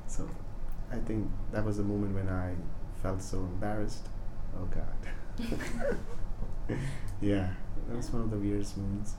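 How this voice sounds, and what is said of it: Light Indian English accent. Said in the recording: “my accent, you know, is Indian. It's more of like we use pronunciations from English, like British ... English ... your accent isn't as heavy as I thought it would be.”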